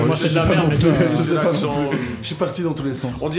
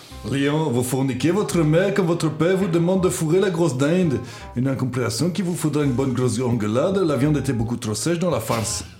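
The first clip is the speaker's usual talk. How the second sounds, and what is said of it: Weak imitation of Belgian accent. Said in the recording (French): “Je sais pas quel accent tu fais... On dirait un Français qui essaye d'imiter un Belge.”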